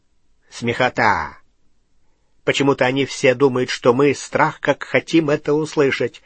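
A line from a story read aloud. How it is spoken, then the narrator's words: Smirking snort in darkness. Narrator (Russian): хмыкнул в темноте Струпьер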